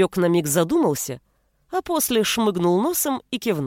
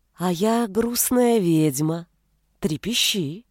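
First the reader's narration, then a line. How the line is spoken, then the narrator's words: Insinuating, ingratiating. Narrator (Russian): вкрадчиво сказала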